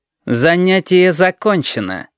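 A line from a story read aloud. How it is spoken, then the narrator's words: Icy tone. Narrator (Russian): сказал Портнов ледяным тоном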